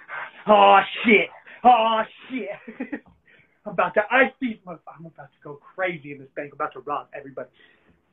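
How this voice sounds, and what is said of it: Comic bank robber character voice. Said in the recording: “my impersonation of a bank robber going to rob a bank during COVID-19”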